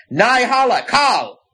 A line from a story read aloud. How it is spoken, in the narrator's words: Mord shouted